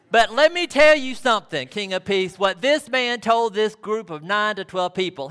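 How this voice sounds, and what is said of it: Sweet Southern American accent. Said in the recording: “a sweet southern accent, somewhat like mine”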